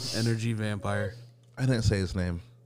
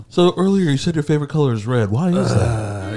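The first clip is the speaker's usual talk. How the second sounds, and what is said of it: Imitates another person's voice. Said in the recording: “That is a really good impression.”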